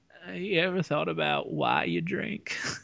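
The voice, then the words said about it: McConaughey impression sounding like Bill Clinton. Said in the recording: “My McConaughey is just Bill Clinton.”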